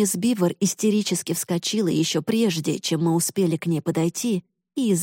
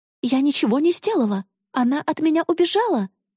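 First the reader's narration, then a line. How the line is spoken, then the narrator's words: Exclaiming. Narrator (Russian): воскликнула мисс Бивер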